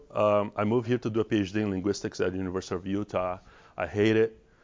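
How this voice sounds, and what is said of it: Brazilian Portuguese accent. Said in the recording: “as you'll notice, I have an accent. I'm from Brazil. I'm Brazilian.”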